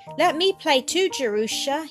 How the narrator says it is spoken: he cried

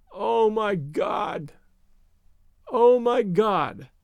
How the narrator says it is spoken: uttered over and over in a gasping moan

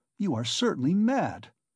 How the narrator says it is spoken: cried Raskolnikov, not so much angered as astonished

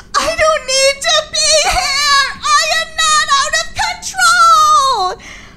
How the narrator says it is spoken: I sobbed

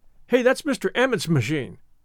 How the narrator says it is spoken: said one boy sharply

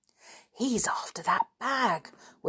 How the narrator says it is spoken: whispered Joe

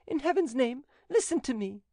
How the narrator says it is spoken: cried Angelique

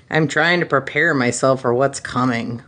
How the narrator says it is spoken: Han growled

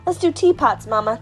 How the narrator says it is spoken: cried Jamila

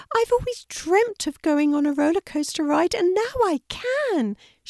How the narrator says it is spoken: she said happily

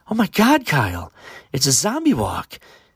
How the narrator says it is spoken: excitedly said his girlfriend

